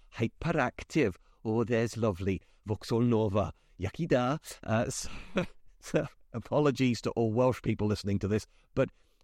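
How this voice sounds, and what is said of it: Put-on Welsh accent. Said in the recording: “if you say hyperactive a certain way, you can end up with a Welsh accent ... that's different to my normal accent”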